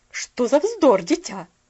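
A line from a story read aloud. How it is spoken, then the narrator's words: Slightly sharp interruption. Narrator (Russian): Прервала ее миссис Керрю немножко резко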